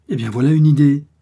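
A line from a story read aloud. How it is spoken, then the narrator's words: Man exclaiming. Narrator (French): s'écria-t-il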